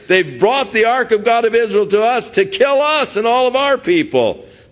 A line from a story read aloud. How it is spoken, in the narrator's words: the people cried out, and they said